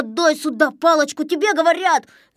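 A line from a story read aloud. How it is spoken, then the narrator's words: Yelling. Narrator (Russian): заорал Незнайка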